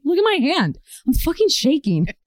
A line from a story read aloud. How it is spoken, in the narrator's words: my manager exclaimed